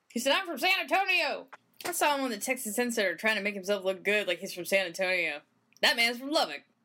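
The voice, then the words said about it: Put-on Texan twang. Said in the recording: “Okay, come back to my body. Okay, I'm back. The twang is gone.”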